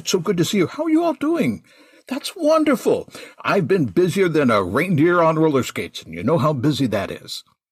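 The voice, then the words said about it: Subtle festive character voice. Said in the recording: “character voice, right, it's not that dissimilar from my normal voice, but it's enough. Just that touch, just a wee drop”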